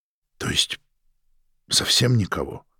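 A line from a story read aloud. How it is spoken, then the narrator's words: Dejected voice, father. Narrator (Russian): упавшим голосом поинтересовался отец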